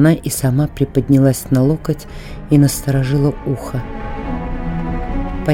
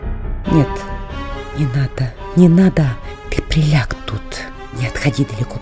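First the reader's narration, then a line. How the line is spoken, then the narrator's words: Whispered. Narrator (Russian): прошептала Катерина Львовна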